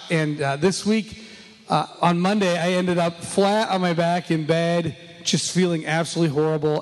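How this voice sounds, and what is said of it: Worn-out, strained voice. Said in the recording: “as you can tell, my voice is shot”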